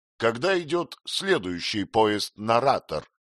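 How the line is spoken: Plain question. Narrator (Russian): спросил он

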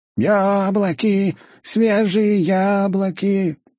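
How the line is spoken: Elderly woman shouting. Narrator (Russian): кричала пожилая женщина

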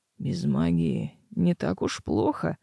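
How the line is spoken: Bridegroom's hoarse whisper. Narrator (Russian): хриплым шепотом поделился жених

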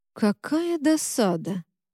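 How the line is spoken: Drawn-out drawl. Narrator (Russian): протянул лейтенант

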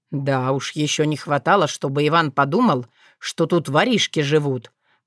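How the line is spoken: Grumbling little fox. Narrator (Russian): проворчал лисеночек чернокрылый

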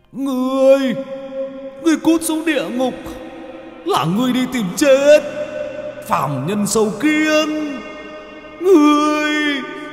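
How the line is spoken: Roaring. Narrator (Vietnamese): Thần cá đá gầm lên

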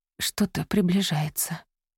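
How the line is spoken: Whisper. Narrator (Russian): прошептала она

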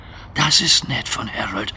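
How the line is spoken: Whispering. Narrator (German): flüsterte Duck

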